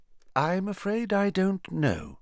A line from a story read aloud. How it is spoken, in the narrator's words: said Dumbledore, his voice gentle